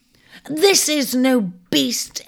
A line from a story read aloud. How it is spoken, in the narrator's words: Ares cried indignantly